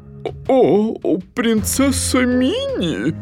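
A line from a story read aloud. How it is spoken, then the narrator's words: Stammering, forced out. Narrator (Russian): Заикаясь, она выдавила из себя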